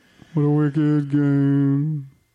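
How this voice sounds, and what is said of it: Terrible imitation of a singer. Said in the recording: “my Chris Isaac terrible impression.”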